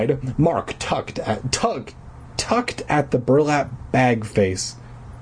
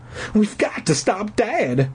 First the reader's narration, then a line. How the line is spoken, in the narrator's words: he cried